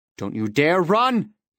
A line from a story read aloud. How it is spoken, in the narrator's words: yelled